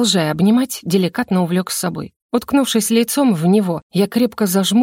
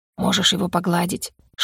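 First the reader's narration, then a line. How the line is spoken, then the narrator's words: Whispered. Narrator (Russian): шепнул Ар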